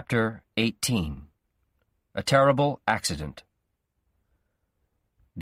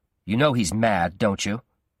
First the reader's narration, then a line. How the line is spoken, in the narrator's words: Guy said